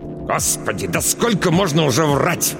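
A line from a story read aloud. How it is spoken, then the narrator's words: Angry hiss. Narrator (Russian): Ираида Павловна злобно зашипела на дочь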